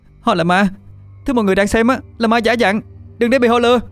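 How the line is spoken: Shouting. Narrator (Vietnamese): Tôi hét lên

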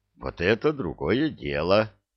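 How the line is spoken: Satisfied, slightly trembling mutter. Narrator (Russian): Удовлетворенно пробормотал он, хотя голос слегка и подрагивал

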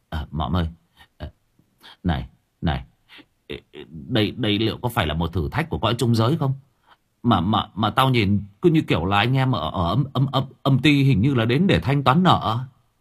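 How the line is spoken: Stunned stammering. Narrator (Vietnamese): Mặc và quỷ mõm đứng sững lại, lắp bắp

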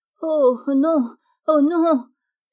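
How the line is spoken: Small pleading voice. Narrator (French): s'écria une petite voix suppliante

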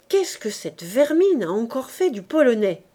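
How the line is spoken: Murmuring. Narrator (French): murmurait Gervaise

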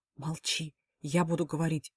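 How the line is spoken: Whisper in ear. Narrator (Russian): шепнул на ухо

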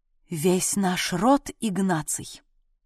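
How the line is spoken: Solemn, slightly indignant proclamation. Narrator (Russian): Торжественно и с некоторой ноткой негодования в голосе провозгласила советница

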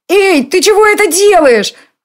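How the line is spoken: Startled shriek. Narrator (Russian): Взвизгнула она, легко опрокинутая на спину

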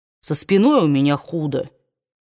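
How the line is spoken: Gloomy warning. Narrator (Russian): мрачно предупредил ее Питер

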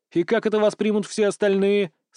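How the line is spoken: Doubtful snort. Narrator (Russian): с сомнением фыркнул

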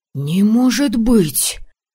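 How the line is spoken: Gasped in unison, several men. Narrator (Russian): Слаженно выдохнули парни

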